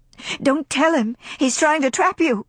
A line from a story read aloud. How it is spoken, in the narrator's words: cried India